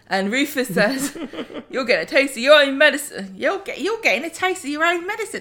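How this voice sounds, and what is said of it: Put-on character accent. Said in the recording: “do the voice ... I do love the accent back and forths.”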